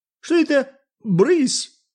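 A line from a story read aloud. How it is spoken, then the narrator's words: Shouting. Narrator (Russian): закричал Марк Самсонович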